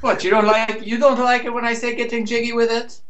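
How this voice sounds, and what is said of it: Bad put-on Irish accent. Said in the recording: “That's an even worse Irish accent than I do.”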